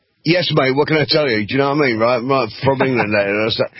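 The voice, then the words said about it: Laid-on English accent. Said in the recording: “No, that's an accent that I ... lay it on ... emulate, but I've been here about 20 years, so I've lost my accent a little bit, apparently.”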